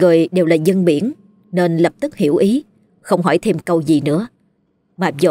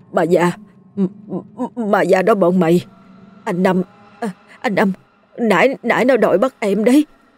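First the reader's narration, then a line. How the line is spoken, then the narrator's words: Trembling, terrified. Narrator (Vietnamese): anh ngồi co rúm, tay chân run rẩy, hoảng sợ nói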